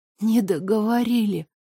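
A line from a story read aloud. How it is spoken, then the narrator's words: Whisper. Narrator (Russian): прошептала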